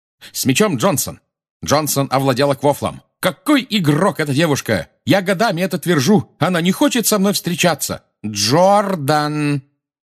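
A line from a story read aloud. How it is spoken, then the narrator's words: Shout. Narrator (Russian): крикнула профессор МакГонагал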